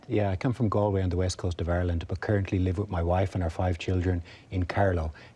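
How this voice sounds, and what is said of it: Irish accent. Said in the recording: “You're Irish. We can tell that by your accent.”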